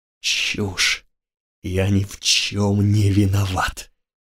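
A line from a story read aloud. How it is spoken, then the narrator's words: Hissed. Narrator (Russian): Грик прошипел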